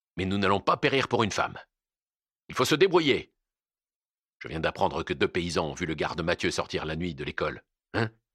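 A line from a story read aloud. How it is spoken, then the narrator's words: Harsh declaration. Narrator (French): déclara-t-il durement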